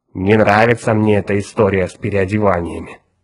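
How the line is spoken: Grumbling. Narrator (Russian): проворчал мозг

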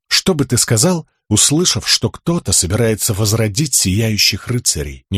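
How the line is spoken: Quiet question. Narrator (Russian): негромко спросил Каладин

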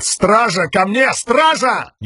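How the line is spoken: Panicked yell. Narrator (Russian): Элокар в панике заорал

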